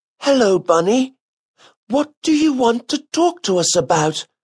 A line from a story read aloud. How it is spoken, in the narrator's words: asked one of the children hesitantly